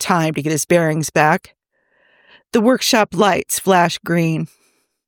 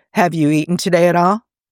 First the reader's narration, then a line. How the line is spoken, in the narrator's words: Steve asks